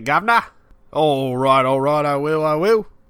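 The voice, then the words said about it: Put-on Cockney accent. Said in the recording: “Do this next bit with a Cockney accent.”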